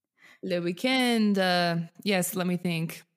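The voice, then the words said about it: Put-on French accent. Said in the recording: “That was me doing it in a French accent”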